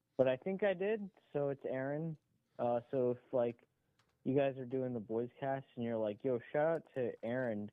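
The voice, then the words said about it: Drunk-sounding speech. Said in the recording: “Sounds drunk ... he sounds drunk ... Definitely sounds drunk.”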